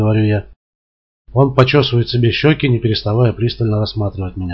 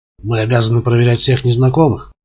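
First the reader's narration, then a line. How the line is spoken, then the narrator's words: Less aggressive tone. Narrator (Russian): говорит он менее агрессивным тоном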